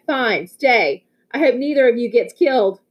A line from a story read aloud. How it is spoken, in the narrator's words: She yelled back